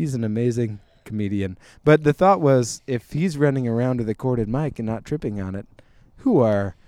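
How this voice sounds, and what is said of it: Usual voice. Nothing is said of it.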